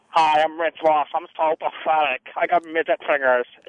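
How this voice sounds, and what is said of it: Impression of Rich Ross. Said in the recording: “I got two impressions for you. One is Rich Ross.”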